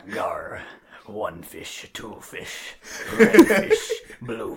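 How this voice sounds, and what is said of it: Pirate voice like Captain Barbossa. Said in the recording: “my internal monologue from my head is just like Captain Barbados from Pirates of the Caribbean”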